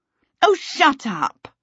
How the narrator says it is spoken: Charmaine snapped at him

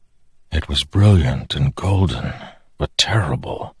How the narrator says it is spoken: Dalinar whispered

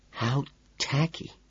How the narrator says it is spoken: Evelyn whispered to me

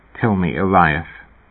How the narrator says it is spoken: Herb said quietly

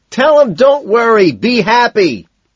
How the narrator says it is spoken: Owen shouts

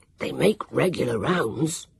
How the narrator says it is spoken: Sam whispered back hoarsely

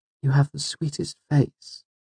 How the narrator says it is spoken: she said dreamily

